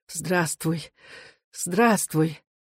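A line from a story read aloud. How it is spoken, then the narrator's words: Quiet, laughing, overwhelmed. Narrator (Russian): Мать засмеялась, не находя слов, тихо говорила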